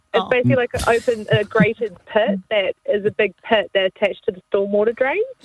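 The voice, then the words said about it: New Zealand accent. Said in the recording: “Even better with a Kiwi accent.”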